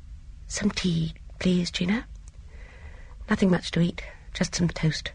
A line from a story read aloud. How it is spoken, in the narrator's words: In a hushed voice said